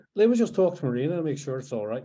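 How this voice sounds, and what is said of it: Poorly done Scottish accent impression. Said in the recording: “Sorry, I butchered that Scottish accent. I started off well.”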